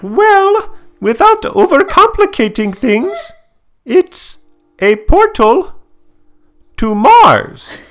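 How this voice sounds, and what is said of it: Cartoon character impression, Indian-ish accent. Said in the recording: “Was that a good impression?... It sounded like Doofenshmirtz... that's a British accent... many times an Indian accent is nearly British”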